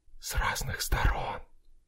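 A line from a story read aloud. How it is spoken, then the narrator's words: Soft smiling whisper. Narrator (Russian): тихо шепнул, улыбнувшись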